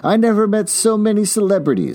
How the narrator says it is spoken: Daisy exclaimed

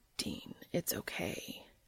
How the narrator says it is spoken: breathed into his ear

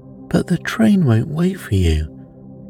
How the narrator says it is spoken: gasped Grandma half in protest

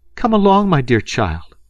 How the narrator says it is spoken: she cried from the doorway

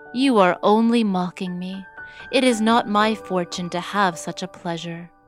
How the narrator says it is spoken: said Cinderella sadly

